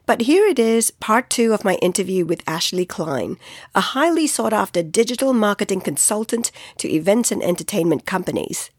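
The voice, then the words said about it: Sick-sounding voice. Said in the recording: “excuse my voice, I got hit hard by the flu”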